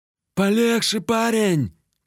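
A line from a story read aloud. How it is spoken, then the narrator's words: Shouted. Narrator (Russian): крикнул тот самый помойный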